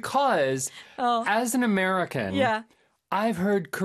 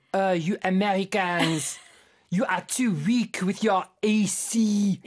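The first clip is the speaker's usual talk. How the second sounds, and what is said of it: Bad put-on French accent. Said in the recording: “my very bad French accent.”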